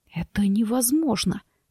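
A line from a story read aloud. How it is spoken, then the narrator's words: Whispered. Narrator (Russian): прошептал он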